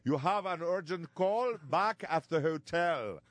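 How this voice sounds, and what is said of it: Rough put-on Bermudian accent. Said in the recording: “I can't really do I didn't work on it enough as far as the Bermudian accent ... It's kind of the Bahamas meets Britain ... that's the accent.”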